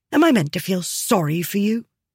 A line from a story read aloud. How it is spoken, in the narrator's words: she snapped